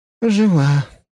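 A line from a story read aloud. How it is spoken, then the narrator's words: Breathless exhale. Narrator (Russian): выдохнула принцесса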